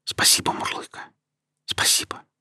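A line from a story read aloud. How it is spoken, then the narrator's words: Confused whisper. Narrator (Russian): Не до конца понимая, что там произошло, я просто шепнул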